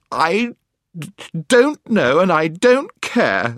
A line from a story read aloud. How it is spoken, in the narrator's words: sobbed Jill